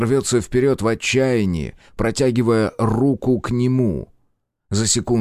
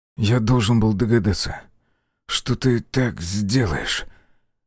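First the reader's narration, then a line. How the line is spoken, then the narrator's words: Hoarse, ragged voice. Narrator (Russian): Голос Белого звучал хрипло и рвано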